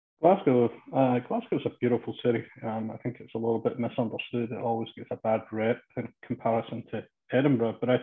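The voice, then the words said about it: Scottish Glasgow accent. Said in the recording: “from the accent, I think everyone can just about get it. It all started back in Glasgow.”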